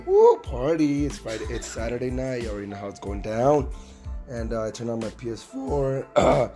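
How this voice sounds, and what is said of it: Strained, nearly lost voice. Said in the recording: “My voice is horrible, guys. My voice is horrible. Actually, I thought I was gonna lose my voice.”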